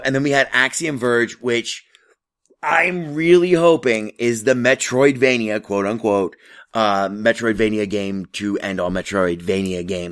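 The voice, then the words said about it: Hoarse, failing voice. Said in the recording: “I'm totally losing my voice.”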